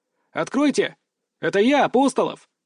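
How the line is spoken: Shouted. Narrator (Russian): крикнул

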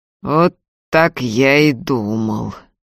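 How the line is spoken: Slow. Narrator (Russian): медленно сказал Прокоп

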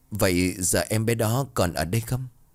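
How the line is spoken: Trembling voice, smiling. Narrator (Vietnamese): cười tủm tỉm, ra nói bằng cái giọng run rẩy

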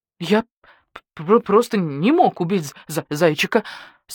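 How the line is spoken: Strained, teeth chattering. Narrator (Russian): стуча зубами, выдавил из себя койот

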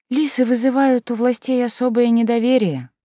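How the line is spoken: Sighing. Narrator (Russian): вздохнув, оправдала мои опасения Наоми

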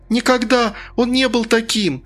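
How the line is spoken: Sobbing woman. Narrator (Russian): всхлипнула женщина

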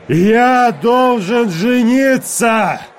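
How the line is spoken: Roaring reply. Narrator (Russian): проревел я в ответ

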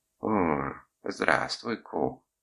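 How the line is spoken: Affectionate greeting. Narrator (Russian): ласково поприветствовала меня она

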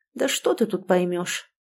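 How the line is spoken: Husband's mutter. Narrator (Russian): буркнул муж

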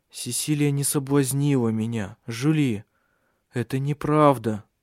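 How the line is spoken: Weary, repeated. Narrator (Russian): сказал он устало уже в который раз

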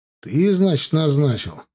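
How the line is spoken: Sigh. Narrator (Russian): Вздохнул я

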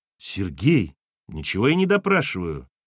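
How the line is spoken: Flustered, defensive. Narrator (Russian): растерянно оправдывался он

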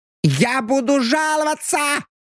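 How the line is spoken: Shriek. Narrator (Russian): взвизгнул он

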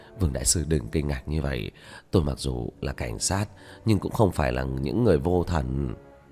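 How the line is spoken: Gentle smiling. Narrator (Vietnamese): Vu lão khẽ mỉm cười

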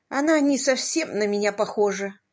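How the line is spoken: Regretful sigh. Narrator (Russian): вздохнула Стар с большим сожалением

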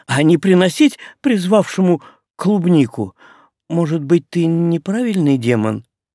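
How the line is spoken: Small trembling voice. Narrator (Russian): дрогнувшим голоском сообщила мне Лаура

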